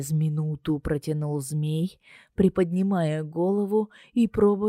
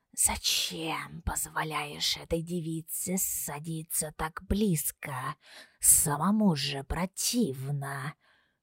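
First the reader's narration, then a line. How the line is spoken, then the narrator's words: Admonishing hiss. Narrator (Russian): наставительно шипел он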